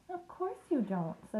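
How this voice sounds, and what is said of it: Comforting voice. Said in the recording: “said Charlotte in a comforting voice.”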